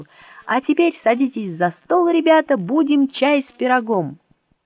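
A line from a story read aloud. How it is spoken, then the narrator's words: Relieved shout. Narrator (Russian): Мишка уже считал, что все кончилось благополучно, и закричал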